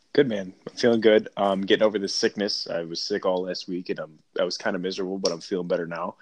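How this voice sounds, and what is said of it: Voice sounds slightly off. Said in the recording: “My voice is a little funny”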